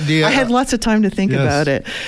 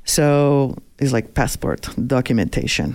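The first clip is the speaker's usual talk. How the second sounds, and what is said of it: Imitated Russian-accented voice. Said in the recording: “That's not a bad accent.”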